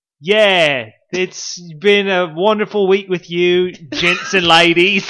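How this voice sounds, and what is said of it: Put-on British accent drifting Australian. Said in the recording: “your British accent? ... Well, Australian. ... Getting more Australian as you go.”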